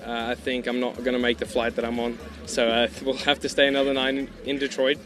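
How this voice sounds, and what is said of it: Mixed Australian, South African, American accent. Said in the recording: “an Australian, South African, American accent”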